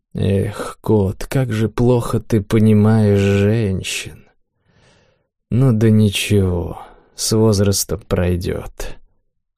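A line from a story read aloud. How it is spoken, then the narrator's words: Smiling mumble. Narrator (Russian): улыбаясь, пробормотал Ким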